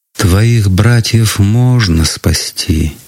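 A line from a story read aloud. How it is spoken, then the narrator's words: Sad sigh. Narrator (Russian): почему-то грустно вздохнула она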